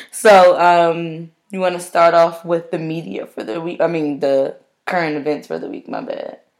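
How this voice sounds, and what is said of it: Slightly hoarse voice. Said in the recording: “My voice is actually a little hoarse.”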